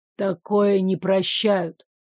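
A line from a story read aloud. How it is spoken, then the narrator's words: Muffled answer. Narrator (Russian): глухо ответил лекарь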